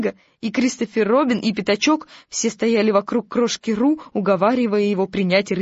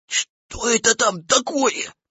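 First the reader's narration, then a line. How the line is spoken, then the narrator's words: Whispered. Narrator (Russian): шепнул тигр Пятачку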